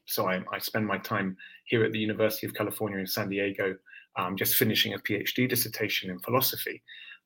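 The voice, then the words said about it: London English accent. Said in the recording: “You can probably hear from my accent, I'm not a Californian natively. I came here from London, England”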